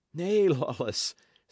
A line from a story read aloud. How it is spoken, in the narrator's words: said Dick, laughing